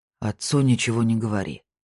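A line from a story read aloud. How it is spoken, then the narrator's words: Even, calm tone. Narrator (Russian): сказал он ровным, спокойным тоном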